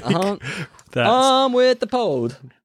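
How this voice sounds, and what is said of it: Put-on Southern American accent. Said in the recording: “With that Southern American accent you got going on there, that was very, very cool.”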